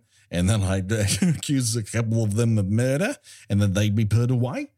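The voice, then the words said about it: Put-on Australian accent. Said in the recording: “That's my Australian accent”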